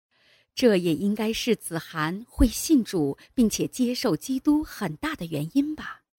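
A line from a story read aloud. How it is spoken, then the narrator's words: Father's soft laugh. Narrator (Chinese): 爸爸轻轻地笑了笑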